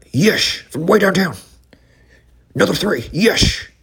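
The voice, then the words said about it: Imitates another person's voice. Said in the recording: “here's me doing a Marv Albert ... Pretty good.”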